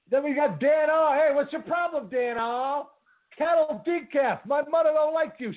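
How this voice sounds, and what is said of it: Put-on Brooklyn accent. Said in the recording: “your Brooklyn accent”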